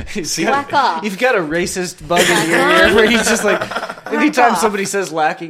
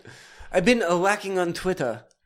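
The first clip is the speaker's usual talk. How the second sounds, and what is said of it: Put-on stereotyped Asian accent. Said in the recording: “you hear it in a racist Asian accent.”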